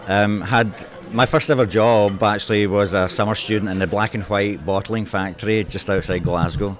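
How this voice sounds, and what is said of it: Scottish accent. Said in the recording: “you do not have the traditional Canadian accent ... you are from Scotland”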